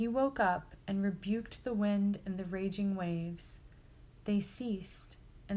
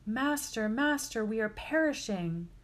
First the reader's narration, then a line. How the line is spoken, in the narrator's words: shouting